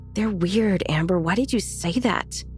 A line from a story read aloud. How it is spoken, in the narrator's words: Will loudly whispered